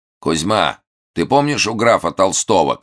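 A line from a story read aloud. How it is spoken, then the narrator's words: Shout. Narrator (Russian): крикнул длинноволосый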